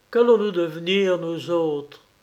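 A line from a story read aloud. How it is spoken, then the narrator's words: Lawyer exclaiming. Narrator (French): s'écria l'avoué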